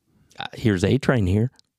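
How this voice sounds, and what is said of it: Creepy put-on voice. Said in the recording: “creepy voice”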